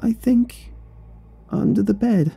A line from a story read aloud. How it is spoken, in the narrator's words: she whimpered